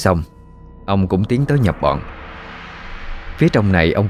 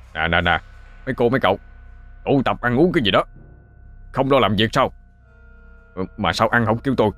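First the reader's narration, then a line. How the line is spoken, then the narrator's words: Sharp shout. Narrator (Vietnamese): ông Hoàng quát lên một tiếng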